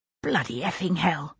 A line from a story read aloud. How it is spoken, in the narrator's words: I whispered